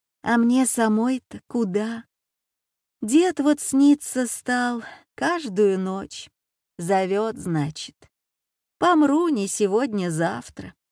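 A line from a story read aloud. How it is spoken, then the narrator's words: Sighing. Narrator (Russian): Соседка вздохнула и сказала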